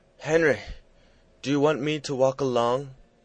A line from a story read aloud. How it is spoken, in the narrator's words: said he, gasping